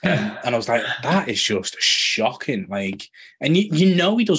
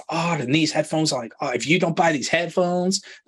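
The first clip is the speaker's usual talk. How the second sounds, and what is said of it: Bad put-on American accent. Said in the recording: “that's my really bad American accent.”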